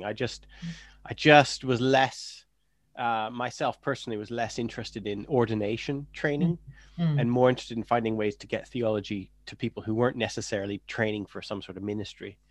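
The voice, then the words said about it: North American Canadian accent. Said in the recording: “is it an American accent I hear? ... Well, no, I'm Canadian.”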